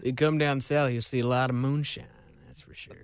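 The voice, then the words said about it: Southern American accent. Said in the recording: “your southern accent.”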